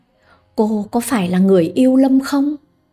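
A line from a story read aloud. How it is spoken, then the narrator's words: Trembling voice over phone. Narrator (Vietnamese): Đầu dây bên kia giọng run rẩy nói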